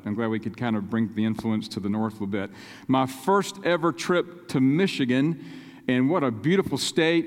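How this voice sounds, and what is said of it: North Carolina Southern accent. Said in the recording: “I have an accent ... the North Carolina accent”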